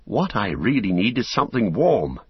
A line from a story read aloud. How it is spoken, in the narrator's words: he said